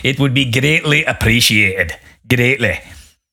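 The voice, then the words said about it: Put-on accent. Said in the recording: “I just thought I'd try an accent.”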